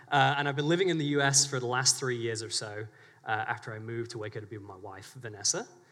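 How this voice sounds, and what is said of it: British English accent. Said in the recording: “I was born in England, in the UK... Hence the ridiculous accent.”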